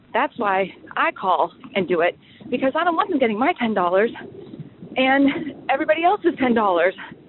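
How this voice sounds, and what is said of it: Slightly out of breath. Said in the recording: “I'm riding my bike and I'm a little bit out of breath.”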